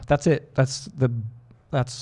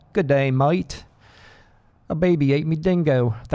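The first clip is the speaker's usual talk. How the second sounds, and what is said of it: Bad put-on Australian accent. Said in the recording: “my whole repertoire of Australian accents. And they were probably pretty bad.”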